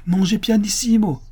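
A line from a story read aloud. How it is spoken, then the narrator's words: Exclaimed. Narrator (French): s'écria Pablo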